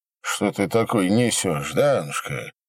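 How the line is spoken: Lazy objection while chewing. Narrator (Russian): Лениво уставил слово поперек Пожарской, не переставая жевать

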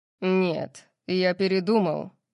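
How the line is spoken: Growling. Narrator (Russian): прорычал Сет

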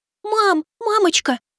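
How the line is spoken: Cooing, imitating another's voice. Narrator (Russian): Стараясь подражать голосу и манере кицунэ, проворковала она

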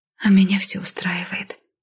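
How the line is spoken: Soft whisper in ear. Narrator (Russian): тихо шепнула на ушко

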